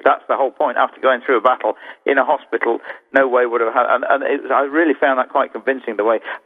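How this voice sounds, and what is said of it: British accent. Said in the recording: “my accent. Why was this guy wearing a Confederate uniform with a British accent?”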